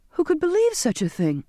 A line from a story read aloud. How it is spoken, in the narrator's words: I exclaimed